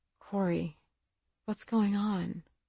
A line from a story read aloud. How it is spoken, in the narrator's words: Greer just said quietly